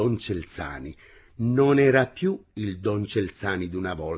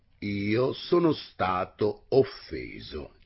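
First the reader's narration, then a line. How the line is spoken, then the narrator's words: Plain. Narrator (Italian): disse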